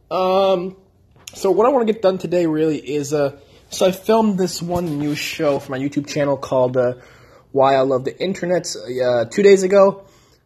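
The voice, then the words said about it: Strained, worn-out voice. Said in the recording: “my voice is a little bit shot”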